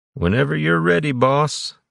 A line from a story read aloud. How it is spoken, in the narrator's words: Tanner said, covering a yawn